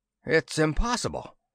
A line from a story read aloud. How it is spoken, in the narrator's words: The graybeard cried